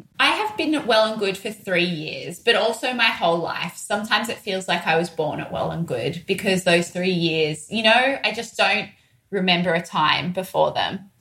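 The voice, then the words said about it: Broad Australian accent. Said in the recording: “your beautiful accent ... Sydney accents tend to be fairly broad ... we definitely do have a broad Australian accent ... this Aussie accent”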